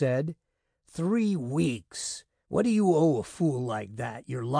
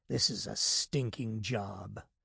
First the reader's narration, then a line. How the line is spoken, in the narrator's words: he said softly, bitterly